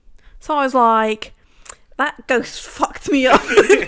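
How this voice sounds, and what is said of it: Put-on British accent. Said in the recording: “a really good British accent? ... No, British accent.”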